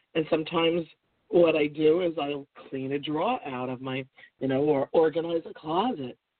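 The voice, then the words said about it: Rough, recovering voice. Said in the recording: “Pardon my voice, I'm still recovering here from a case of respiratory challenge.”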